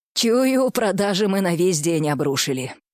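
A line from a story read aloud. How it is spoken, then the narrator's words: Gloomy. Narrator (Russian): мрачно подвел итоги бариста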